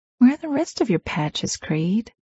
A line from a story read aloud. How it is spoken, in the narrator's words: She purred